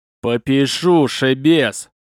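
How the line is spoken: Growl. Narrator (Russian): зарычал он

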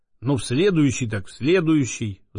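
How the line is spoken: Disappointed sigh. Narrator (Russian): вздохнул огорченно Боголюбов

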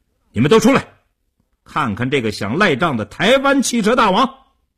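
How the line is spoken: Fierce raised shout. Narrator (Chinese): 叶成坚恶狠狠地，提高声音对里屋喊道

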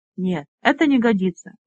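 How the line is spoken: Disappointed sigh. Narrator (Russian): Вансор с огорчением вздохнул

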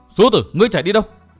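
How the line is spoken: Angry yelling. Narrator (Vietnamese): Gia Cát Linh Phụng giận dữ thét lớn

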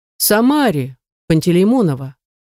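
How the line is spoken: Interrupting. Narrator (Russian): перебивает меня декан

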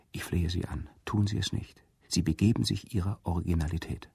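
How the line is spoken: Quiet. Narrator (German): mein Freund leise sagte

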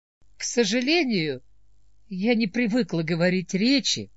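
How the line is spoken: Calm. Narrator (Russian): спокойно сказала Мелисента

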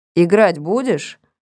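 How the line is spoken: Plain question. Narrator (Russian): спросил меня Вадик

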